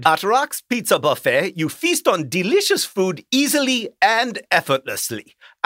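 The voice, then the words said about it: Put-on German accent. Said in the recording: “I don't have a Finnish accent. I've never met a Finnish person. But this is a German accent.”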